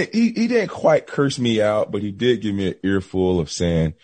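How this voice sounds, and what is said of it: Usual voice. Nothing is said of it.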